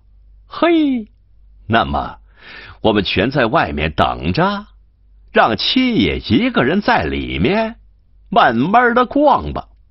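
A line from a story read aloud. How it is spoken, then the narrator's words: Laughing. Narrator (Chinese): 张顺笑道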